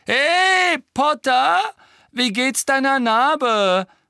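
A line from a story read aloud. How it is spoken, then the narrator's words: Calling out. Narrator (German): rief Malfoy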